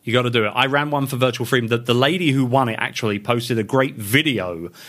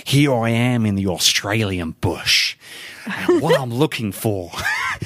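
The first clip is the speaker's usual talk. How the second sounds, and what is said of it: Put-on Australian accent. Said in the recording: “I'm going to do an Aussie accent. So for my Aussie listeners, I apologize in advance.”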